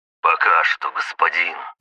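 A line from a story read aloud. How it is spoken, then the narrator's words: Hoarse rasp. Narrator (Russian): прохрипел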